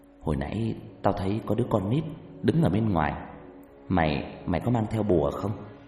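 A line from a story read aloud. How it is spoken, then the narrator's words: Soft whisper. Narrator (Vietnamese): một người bạn mới khe khẽ nói với anh tôi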